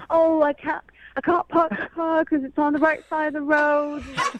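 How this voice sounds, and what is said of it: Mocking imitation of British accent. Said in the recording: “That's a pretty good accent ... That's a pretty good accent.”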